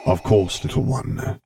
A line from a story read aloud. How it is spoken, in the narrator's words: rumbled